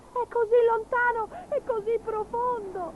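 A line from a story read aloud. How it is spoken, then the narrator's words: Sobbing. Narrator (Italian): singhiozzò Gobbolino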